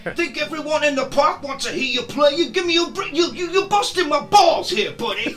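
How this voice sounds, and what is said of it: Put-on New York American accent. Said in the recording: “that's my American New York accent for you there ... That's a good one.”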